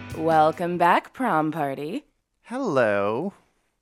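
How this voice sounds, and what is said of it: Low, husky, tired sultry voice. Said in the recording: “real 900 operator voice of you today ... I got no sleep, so my voice is showing it ... sultry sounding”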